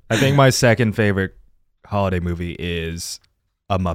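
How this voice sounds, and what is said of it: Usual voice. Nothing is said of it.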